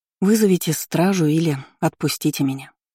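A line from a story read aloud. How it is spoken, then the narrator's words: Weary plea. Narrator (Russian): устало попросила она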